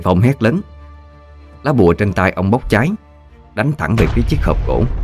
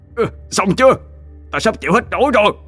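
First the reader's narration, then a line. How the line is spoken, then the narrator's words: Strained, gritted growl. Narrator (Vietnamese): Anh Bác dồn hết sức lực ôm chân con quỷ, gằn giọng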